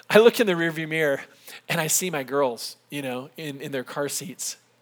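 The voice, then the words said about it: Tired, emotional voice. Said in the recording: “I'm tired, so I'm getting a little emotional.”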